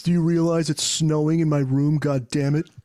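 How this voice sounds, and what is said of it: Imitates another person's voice. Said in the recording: “Bill Pullman. ... That's a good impression.”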